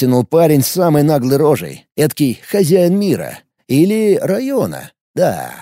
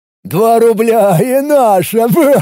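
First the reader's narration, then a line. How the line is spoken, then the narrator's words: Guffawing. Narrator (Russian): Прогоготал второй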